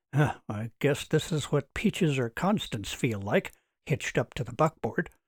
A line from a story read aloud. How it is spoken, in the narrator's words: he muttered